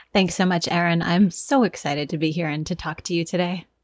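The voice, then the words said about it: Polished public-radio-style voice. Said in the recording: “You have such an NPR voice.”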